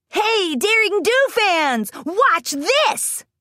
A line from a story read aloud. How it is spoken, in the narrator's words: Rainbow hollered